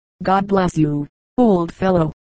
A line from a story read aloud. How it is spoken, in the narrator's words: Charlie said